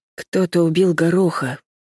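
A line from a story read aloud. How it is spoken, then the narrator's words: Reluctant sighing report. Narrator (Russian): вздохнув, все же сообщила я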